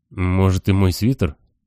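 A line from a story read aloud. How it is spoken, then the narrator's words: Timid. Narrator (Russian): робко говорит лорд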